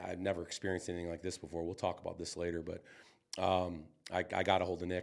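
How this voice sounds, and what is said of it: Raspy, congested voice. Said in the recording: “had this head cold thing going on. If you can't tell right now, I'm a little bit raspy”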